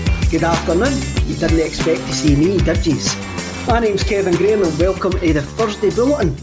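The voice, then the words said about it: Thick Stirlingshire Scottish accent. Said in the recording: “a thick Stirlingshire accent ... my Stirling accent”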